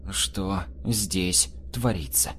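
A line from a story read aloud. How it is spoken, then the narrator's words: Very quiet, measured, through teeth. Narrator (Russian): Тихо-тихо, взвешивая каждое слово, процедил Юнкеровский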